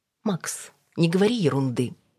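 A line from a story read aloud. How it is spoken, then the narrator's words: Irritated, through teeth. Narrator (Russian): процедила раздраженно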